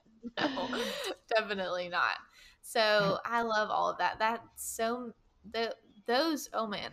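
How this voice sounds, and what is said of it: Voice giving out, hoarse. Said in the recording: “I'm losing my voice.”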